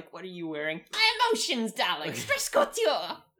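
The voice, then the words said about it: Poor attempt at cartoon pony voice. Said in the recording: “Which is also not a Rarity voice at all. There's a reason I am a podcaster and not a voice actress. It's because we can't actually do the horse voices very well.”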